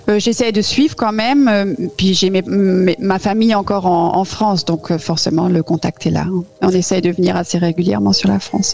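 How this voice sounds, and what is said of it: Slight German accent in French. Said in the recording (French): “on entend un, tout petit accent allemand”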